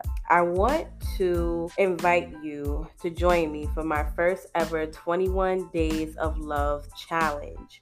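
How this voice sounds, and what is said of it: Voice sounds a little ill. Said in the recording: “I'm a little bit under the weather... My voice is a little like”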